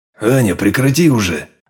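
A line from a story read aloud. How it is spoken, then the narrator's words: Warning growl. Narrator (Russian): Рыкнул я предостерегающе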